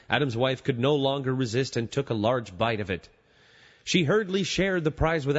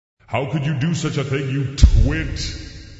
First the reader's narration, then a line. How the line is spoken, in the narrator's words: God angrily he bellowed